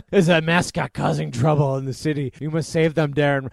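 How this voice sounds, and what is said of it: Imitates another person's voice. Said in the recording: “Again, I just do Arnold... Good impression.”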